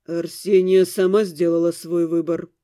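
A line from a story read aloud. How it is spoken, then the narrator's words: Cold. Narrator (Russian): холодно сказал он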